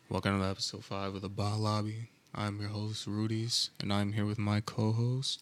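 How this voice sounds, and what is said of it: Monotone, lower-pitched voice. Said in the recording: “my voice may be a little bit monotone now instead of it being a bit more higher pitched or just higher in general”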